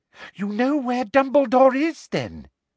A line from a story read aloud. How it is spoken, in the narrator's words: said Umbridge eagerly